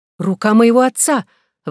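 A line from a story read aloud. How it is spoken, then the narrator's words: Exclaiming. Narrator (Russian): воскликнула она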